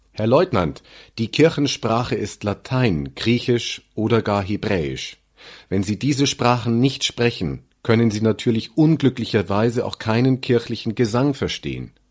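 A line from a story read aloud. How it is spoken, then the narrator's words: Loud call back downward. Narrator (German): Damit alle da unten es gut hören konnten, rief ich laut zurück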